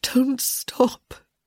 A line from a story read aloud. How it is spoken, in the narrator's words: moaned